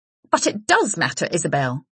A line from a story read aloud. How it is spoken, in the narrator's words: she snapped